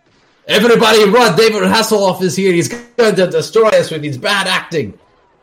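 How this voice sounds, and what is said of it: Yelled unidentifiable put-on foreign accent. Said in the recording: “I don't know what that accent was. ... I was just yelling in foreign language.”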